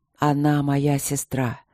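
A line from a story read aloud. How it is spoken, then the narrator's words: Hoarse, hesitant. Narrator (Russian): сипло сказал он наконец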